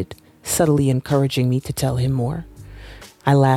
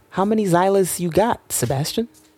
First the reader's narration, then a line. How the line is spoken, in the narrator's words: He cleared his throat, offering what seemed like a forced laugh